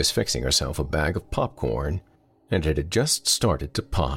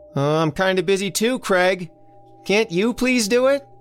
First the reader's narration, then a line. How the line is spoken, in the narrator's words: Elsie hollered back